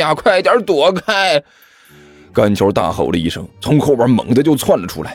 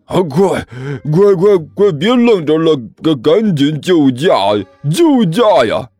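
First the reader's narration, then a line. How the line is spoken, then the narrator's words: Panicked roaring. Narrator (Chinese): 李彦都顿时一声大吼 一阵大吼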